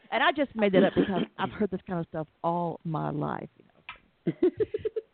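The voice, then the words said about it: Southern American accent. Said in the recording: “as you can tell from my accent, I really am from the South”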